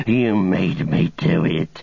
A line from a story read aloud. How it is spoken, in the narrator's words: he hissed